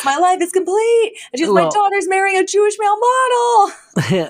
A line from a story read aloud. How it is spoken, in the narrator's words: Fran literally yells